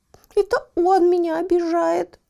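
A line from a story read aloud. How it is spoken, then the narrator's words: Whimpering. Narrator (Russian): захныкала Еля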